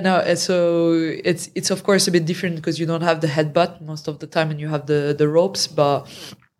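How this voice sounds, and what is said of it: French-accented English. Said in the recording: “French accent.”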